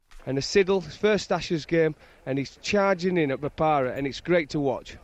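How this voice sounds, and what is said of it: Yorkshire accent. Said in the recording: “that good Yorkshire accent there”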